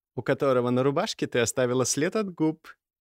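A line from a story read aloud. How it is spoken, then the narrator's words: Giggling. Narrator (Russian): хихикнула Варвара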